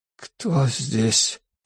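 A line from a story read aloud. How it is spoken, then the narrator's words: Whisper. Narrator (Russian): прошептал он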